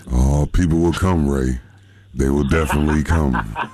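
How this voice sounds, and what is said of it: James Earl Jones impression. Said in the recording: “impersonation of James Earl Jones”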